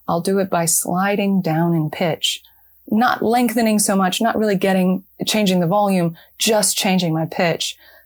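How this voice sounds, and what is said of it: General American accent. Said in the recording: “my home accent, this sort of general American accent”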